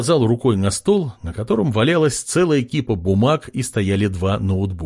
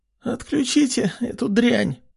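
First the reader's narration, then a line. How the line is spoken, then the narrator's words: Hoarse voice. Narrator (Russian): раздался хриплый голос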